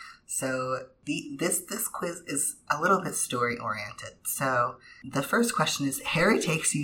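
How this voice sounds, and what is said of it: Usual voice. Nothing is said of it.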